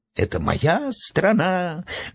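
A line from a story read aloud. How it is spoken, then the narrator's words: Shrill, spiteful shriek. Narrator (Russian): взвизгнула высохшая от вечной злости Гингема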